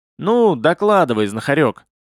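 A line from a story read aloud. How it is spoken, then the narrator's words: Booming, droning voice. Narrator (Russian): прогудел Равиль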